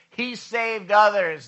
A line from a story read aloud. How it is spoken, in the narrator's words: they laughed at him